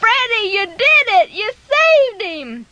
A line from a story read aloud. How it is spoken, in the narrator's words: they were just cheering and yelling